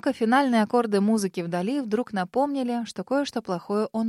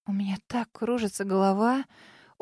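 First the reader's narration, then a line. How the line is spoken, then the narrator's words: Faint moaning. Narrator (Russian): обморочным тоном простонала я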